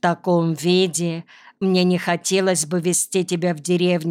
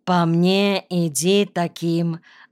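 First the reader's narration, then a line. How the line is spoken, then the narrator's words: Plain. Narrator (Russian): ответила она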